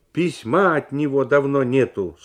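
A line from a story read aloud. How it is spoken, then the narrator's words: Stern, cutting in. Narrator (Russian): строго сказала она, опережая мужа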